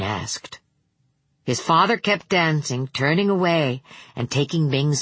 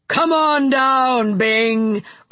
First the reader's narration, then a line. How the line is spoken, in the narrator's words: cried a deep, booming voice, a voice so loud that the china chattered in the armoire